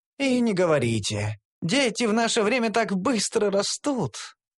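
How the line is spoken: Theatrical sigh. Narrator (Russian): Театрально вздохнул

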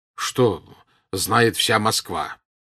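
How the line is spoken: Said angrily. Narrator (Russian): сказал сердито Пьер

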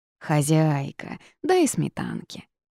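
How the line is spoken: Drawling, cat. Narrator (Russian): протянул кот

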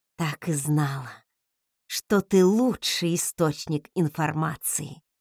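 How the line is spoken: Drawl. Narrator (Russian): протянула

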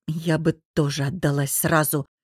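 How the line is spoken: Muttering under breath. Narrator (Russian): буркнула себе под нос Софья

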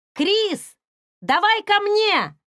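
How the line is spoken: Impulsive shout. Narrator (Russian): ни о чем не думая, крикнула Хейли

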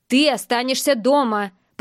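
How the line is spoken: Angry. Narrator (Russian): произносит зло

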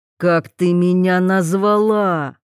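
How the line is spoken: Hiss. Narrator (Russian): прошипел Вольных

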